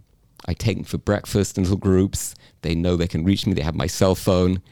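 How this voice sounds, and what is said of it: British English accent. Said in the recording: “as you can tell, came from England. This is a genuine British ... accent.”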